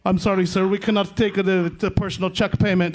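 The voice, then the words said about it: Imitates a caller's foreign accent. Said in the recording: “He had an accent. You know, he sounded like from another.”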